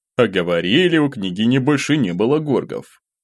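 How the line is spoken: Snorted. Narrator (Russian): хмыкнул принц

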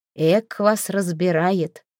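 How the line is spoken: Snort, hiding hurt. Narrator (Russian): хмыкнул Доброст, не показывая, что задет

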